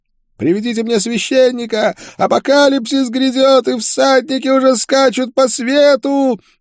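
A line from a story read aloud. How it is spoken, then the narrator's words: Madman's wailing. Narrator (Russian): вопил умалишенный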